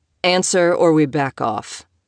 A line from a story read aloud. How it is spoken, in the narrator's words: Spade said, his tone cool